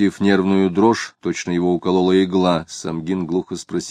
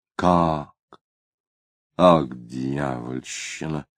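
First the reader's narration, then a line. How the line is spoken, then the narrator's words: Muttering. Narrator (Russian): пробормотал Тагильский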